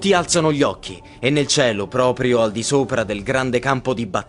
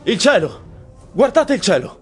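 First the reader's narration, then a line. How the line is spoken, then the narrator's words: Someone shouts. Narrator (Italian): qualcuno grida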